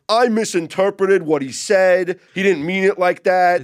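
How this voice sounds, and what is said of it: Imitated New York accent. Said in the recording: “Is that your New York accent? ... That's my Beningo accent.”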